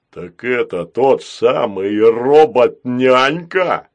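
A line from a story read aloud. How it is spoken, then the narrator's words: Deep bass. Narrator (Russian): пробасил Грохотун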